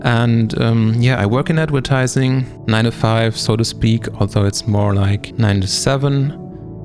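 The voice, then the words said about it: German accent in English. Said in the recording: “I live in Germany, so that's also where this weird accent comes from in my English.”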